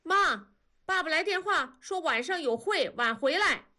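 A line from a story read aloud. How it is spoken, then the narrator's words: Shouting from outside. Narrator (Chinese): 外面 喊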